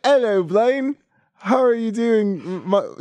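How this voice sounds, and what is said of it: Poor attempt at British accent. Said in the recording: “I'm really bad at doing accents ... I got tasked with a British accent, and I can't do a British accent ... God no. Oh god”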